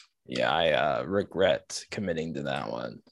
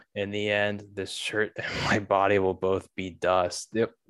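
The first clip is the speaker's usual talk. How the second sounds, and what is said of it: Flat monotone reading. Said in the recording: “my monotone reading of that one”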